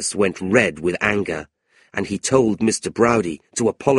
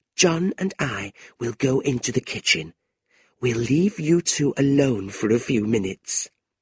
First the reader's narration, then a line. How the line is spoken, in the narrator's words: whispered